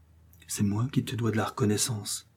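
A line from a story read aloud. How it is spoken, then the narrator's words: Quiet reply, woman. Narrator (French): lui répondit-elle tout bas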